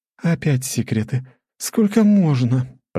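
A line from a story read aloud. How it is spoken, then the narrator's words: Moan. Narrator (Russian): простонала Лора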